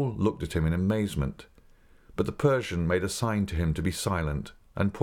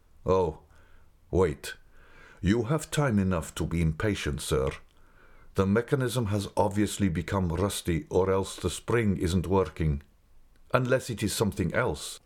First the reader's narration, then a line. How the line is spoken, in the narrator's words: added the Persian anxiously